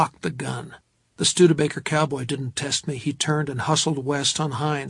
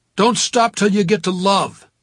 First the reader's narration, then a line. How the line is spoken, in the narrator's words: shouted after him